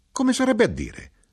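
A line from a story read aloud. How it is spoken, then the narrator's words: Knife-grinder exclaiming. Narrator (Italian): l'arrotino esclamò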